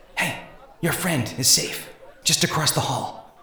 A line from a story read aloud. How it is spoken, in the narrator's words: Inanity whispered